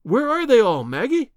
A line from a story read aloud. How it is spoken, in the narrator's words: I cried